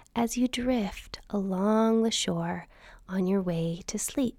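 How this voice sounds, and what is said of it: Soothing sleep meditation narrator voice. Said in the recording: “my best imitation”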